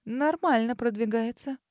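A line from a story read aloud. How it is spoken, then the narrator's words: Nervous grumble and sigh. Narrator (Russian): буркнула королева и нервно вздохнула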